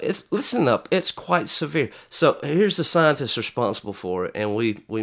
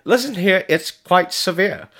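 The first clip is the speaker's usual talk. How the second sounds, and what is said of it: Put-on British accent. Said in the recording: “she's got kind of, like, a British accent”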